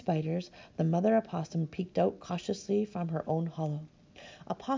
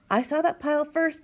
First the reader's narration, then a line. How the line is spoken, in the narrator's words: Big Ewe cried